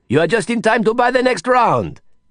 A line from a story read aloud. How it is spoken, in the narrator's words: Didier shouted